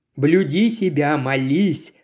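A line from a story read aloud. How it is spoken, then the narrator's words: Plain. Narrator (Russian): сказал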